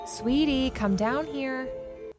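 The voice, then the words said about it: Cute motherly character voice. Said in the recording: “you have a cute mom voice.”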